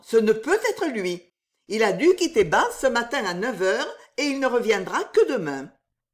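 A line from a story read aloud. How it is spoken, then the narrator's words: Sharp quick exclamation. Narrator (French): s'écria Anna vivement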